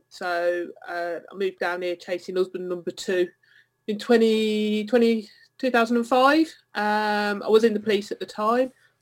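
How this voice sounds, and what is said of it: Slight Birmingham accent. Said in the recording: “I'm based down in Essex, but I was brought up in Birmingham, so I've still got a bit of the twang.”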